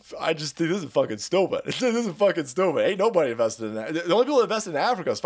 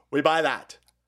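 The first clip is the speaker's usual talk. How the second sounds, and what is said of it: Bad put-on Chinese accent. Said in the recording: “that's a world's worst Chinese accent”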